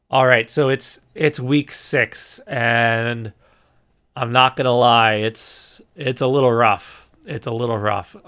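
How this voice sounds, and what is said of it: Voice sounds a little off. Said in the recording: “You might hear my voice is a little off tonight”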